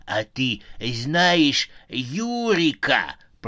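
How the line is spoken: Hoarse wheeze. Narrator (Russian): прохрипел он

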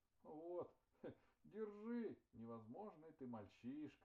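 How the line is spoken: Smirk then laughter. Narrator (Russian): усмехнулся Антьва и опять захохотал

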